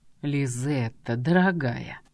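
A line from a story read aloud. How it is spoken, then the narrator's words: Casual seductive purr. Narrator (Russian): Как ни в чем не бывало, мурлыкнул Фаниан, именно тем самым голосом, которым умело соблазнял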